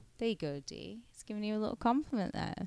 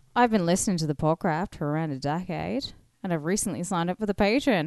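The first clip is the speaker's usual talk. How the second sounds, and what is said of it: Put-on Australian accent. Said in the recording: “I'm doing my Aussie accent”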